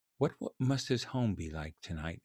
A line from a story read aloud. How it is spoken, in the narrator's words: He muttered to himself